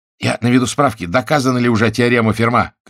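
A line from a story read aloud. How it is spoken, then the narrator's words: Shouted. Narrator (Russian): крикнул Генрих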